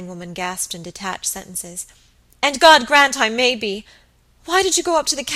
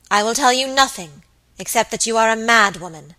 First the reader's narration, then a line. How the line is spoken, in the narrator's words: answered Lady Audley in a cold, hard voice